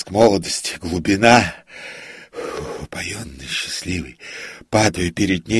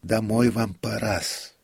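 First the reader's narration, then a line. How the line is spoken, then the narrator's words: Timid prompter's voice. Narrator (Russian): робко проговорил суфлер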